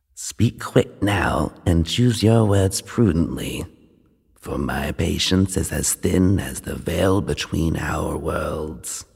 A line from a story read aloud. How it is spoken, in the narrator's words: The ancient creature stirred, causing the ground to shake violently, and then he whispered